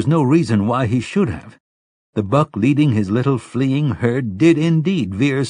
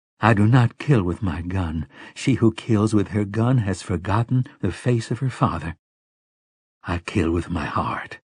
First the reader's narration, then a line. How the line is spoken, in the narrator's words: she murmured